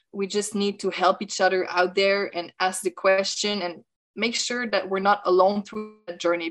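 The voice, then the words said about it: French accent. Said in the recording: “French accent.”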